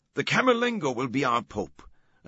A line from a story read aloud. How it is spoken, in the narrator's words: another shouted